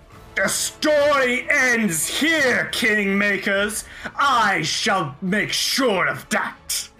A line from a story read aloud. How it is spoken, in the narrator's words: Iltuliak, like, roars out, and she, like, cackles and says